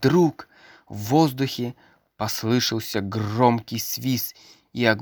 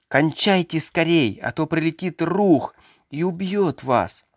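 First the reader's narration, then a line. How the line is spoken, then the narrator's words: Shouting. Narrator (Russian): Он кричал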